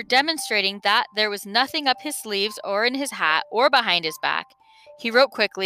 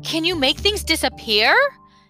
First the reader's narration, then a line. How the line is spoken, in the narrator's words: asked Milo excitedly